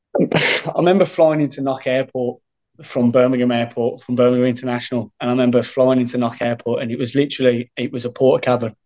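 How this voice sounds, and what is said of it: Birmingham English accent. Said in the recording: “You're from Birmingham, in case our listeners haven't worked it out from the accent”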